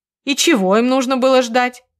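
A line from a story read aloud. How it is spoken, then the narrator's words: Snorting, mother. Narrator (Russian): фыркнула мать Марка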